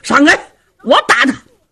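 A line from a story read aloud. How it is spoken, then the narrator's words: Shout. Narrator (Chinese): 有人喊了一声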